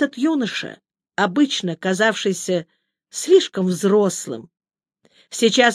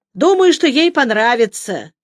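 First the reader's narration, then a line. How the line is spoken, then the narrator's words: Cheerful laugh. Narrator (Russian): весело рассмеялся Хиераги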